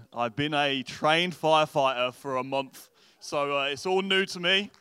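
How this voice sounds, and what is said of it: English accent. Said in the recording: “The accent, I am not from around here, you might have noticed. I'm originally from England”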